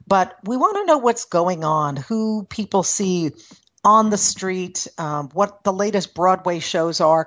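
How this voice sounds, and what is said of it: New York accent. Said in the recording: “while I still got this accent, I am not a New Yorker anymore”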